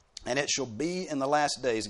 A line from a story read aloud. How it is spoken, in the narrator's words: God says